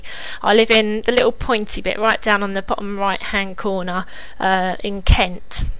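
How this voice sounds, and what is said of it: British English accent. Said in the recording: “as you may be able to tell from the accent, I'm the UK.”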